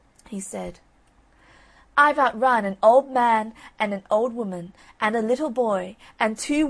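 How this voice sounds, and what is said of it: Usual voice. Nothing is said of it.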